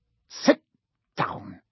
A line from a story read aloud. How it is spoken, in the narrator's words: he snapped at Hermione